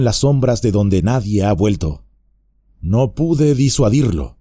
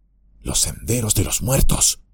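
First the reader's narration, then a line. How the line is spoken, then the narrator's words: Murmured. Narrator (Spanish): murmuró Merry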